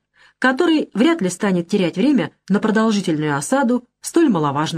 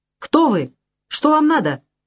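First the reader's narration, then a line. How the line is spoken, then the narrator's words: Shouted from a rampart. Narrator (Russian): крикнул с вала Буркьен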